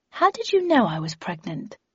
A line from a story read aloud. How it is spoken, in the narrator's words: I asked